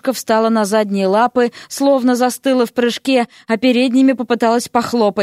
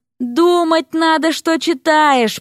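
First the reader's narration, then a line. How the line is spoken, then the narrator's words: Groaning. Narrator (Russian): простонал Эрик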